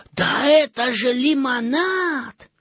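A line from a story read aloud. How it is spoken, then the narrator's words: Surprised exclamation. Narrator (Russian): Жан удивленно воскликнул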